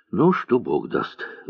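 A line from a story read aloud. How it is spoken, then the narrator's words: Sighing colonel. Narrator (Russian): вздохнул полковник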